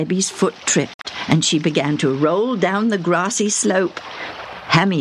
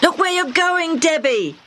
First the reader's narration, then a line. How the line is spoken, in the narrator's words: Hammy shouted